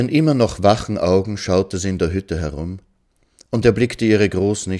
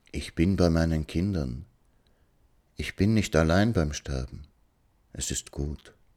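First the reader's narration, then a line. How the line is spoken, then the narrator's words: Whispering. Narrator (German): flüsterte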